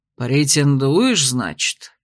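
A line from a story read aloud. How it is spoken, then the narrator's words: Drawling. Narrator (Russian): протянул он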